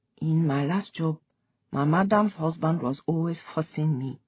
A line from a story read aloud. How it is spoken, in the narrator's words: said quietly